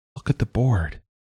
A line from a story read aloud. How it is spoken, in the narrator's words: said quietly